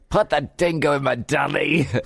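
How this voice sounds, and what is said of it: Bad Australian accent drifting English. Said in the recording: “I do Australian accents ... I'm horrible at it. It turns English really quick.”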